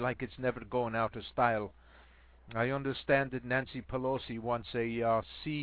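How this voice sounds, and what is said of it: Usual voice. Nothing is said of it.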